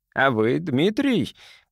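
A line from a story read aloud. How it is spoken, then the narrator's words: Playful chuckle. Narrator (Russian): подыграл ему мужчина, хохотнул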